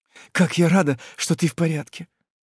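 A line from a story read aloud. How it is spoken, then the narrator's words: Trembling, strained voice. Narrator (Russian): дрожащим голосом еле-еле выдавливает из себя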